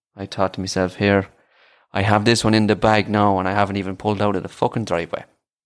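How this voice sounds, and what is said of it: Irish accent. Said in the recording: “are you Irish? I said, I am. ... I love the Irish accent.”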